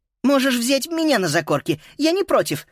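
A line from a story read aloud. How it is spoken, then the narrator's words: Squeaky voice. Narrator (Russian): пропищала Эленора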